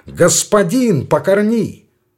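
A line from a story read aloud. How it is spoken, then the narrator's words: Louder shout. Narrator (Russian): Он крикнул громче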